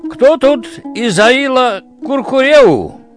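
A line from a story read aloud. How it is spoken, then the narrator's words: Shout. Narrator (Russian): крикнул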